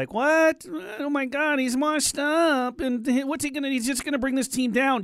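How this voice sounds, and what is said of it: Mocking impression of a critic. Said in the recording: “Who that impression was of ... who are you doing the impression of right there? ... I'm talking about the Twitter crazed people”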